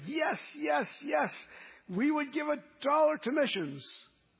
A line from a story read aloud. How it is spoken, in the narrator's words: again they shouted